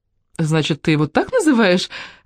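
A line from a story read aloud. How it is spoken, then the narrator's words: Laughing. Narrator (Russian): засмеялась Мелинда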